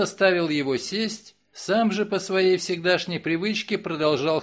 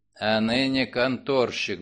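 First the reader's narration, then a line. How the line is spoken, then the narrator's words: Muttered. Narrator (Russian): буркнул Мегре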